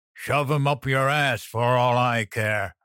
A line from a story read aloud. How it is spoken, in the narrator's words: Moses growled